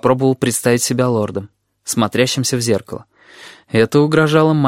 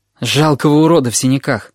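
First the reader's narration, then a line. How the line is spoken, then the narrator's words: Gloomy reply. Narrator (Russian): отозвался я мрачно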